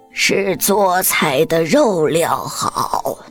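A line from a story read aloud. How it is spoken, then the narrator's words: Modest hoarse old woman. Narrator (Chinese): 老妪谦虚的扯着他那沙哑的嗓子说道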